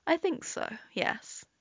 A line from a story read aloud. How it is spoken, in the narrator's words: Tim says quietly